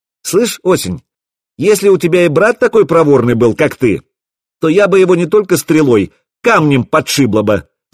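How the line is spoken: Ringing shout. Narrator (Russian): звонко выкрикнула Заря

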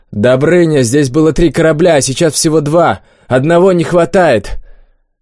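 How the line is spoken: Shouting. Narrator (Russian): Олег крикнул

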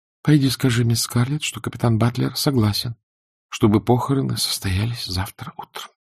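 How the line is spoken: Whisper. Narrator (Russian): прошептала она

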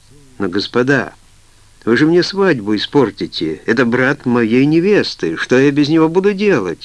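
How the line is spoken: Shout. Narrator (Russian): закричал Боб

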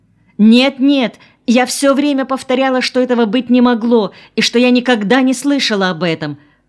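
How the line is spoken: Hasty exclamation. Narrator (Russian): поспешно воскликнула Лёля

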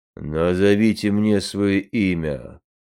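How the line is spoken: Rough bass, warrior. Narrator (Russian): грубо пробасил богатырь

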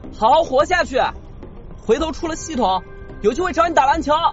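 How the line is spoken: Shouting from afar. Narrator (Chinese): 余文远远冲迪离喊

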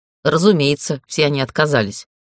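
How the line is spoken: Driver's snort. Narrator (Russian): хмыкнул водитель

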